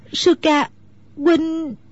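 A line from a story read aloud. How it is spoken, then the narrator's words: Choked, tearful. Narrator (Vietnamese): Nước mắt Mẫn Nhu trào ra như mưa, nàng nghẹn ngào nói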